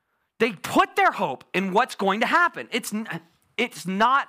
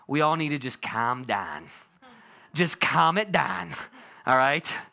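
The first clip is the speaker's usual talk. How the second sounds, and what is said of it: Put-on Pittsburgh Yinzer accent. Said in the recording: “In my best Yinzer accent”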